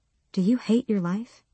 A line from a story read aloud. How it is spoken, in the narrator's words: Her words were barely more than a whisper